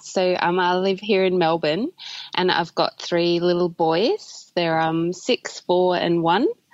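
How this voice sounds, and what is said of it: Australian accent. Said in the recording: “as you can tell from my accent, I live in Australia”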